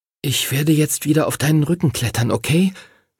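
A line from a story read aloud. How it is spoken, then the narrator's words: Whisper. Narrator (German): flüsterte er dem Drachen zu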